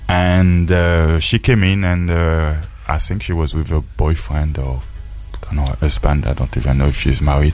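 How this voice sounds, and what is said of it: Speaks with a foreign accent. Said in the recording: “Excuse my accent.”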